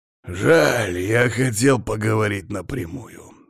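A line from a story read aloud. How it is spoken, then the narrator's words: Snorting. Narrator (Russian): хмыкнул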